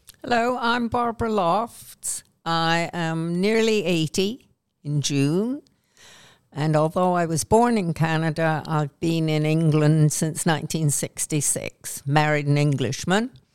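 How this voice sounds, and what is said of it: Canadian accent. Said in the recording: “I feel more English than Canadian now, even though I sound Canadian still.”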